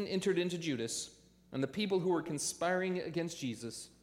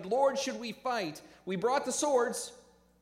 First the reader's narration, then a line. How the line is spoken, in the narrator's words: the disciples saw what was about to go down, they shouted